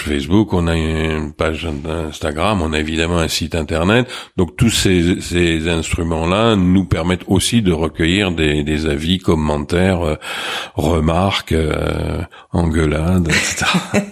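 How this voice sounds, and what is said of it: Slight Marseille French accent. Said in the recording (French): “coloré par votre accent ... un point d'accent euh, marseillais ... Marseille a, a, marqué un petit peu votre accent”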